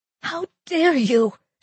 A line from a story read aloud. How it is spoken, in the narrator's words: she said, gasping